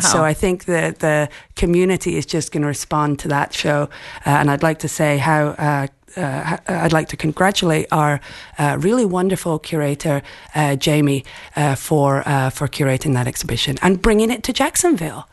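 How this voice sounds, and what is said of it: Scottish accent. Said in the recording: “a very lovely Scottish accent”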